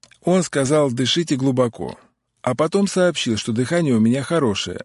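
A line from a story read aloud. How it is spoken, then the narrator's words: Plain. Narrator (Russian): ответил Алексей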